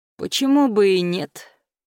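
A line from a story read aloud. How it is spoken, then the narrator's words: Drawling. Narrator (Russian): протянул Руслан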